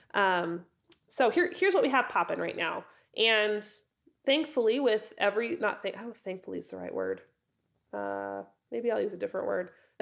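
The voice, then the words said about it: Raspy, hoarse voice from a cold. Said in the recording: “losing my voice, so I'm going to be a little raspy. ... just a head cold, so bear with me if I sound a little bit froggier than normal.”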